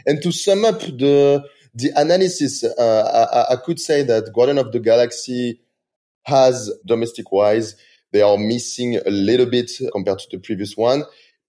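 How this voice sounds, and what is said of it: Strong French accent. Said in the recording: “big French accent”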